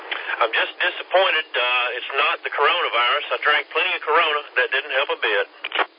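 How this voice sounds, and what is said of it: Hoarse, froggy voice. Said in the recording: “as you can tell by my voice, I'm a little bit froggy ... trying to recuperate from a cold”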